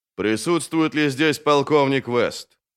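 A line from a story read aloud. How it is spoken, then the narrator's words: Booming low voice. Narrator (Russian): спросил он гулким низким голосом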